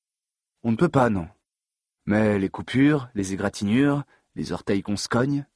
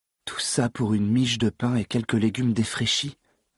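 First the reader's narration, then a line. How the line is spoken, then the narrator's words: Muttered. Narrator (French): marmonna-t-il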